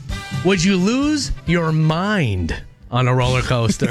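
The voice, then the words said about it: Dramatic delivery. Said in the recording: “say it dramatically”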